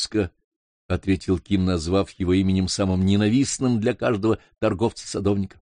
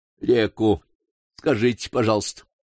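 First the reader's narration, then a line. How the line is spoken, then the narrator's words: Snort. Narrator (Russian): фыркнул фермер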